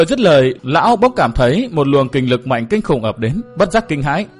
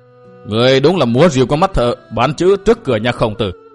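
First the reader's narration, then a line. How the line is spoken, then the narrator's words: Sneering. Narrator (Vietnamese): Phác Ma Thiên cười khẩy nói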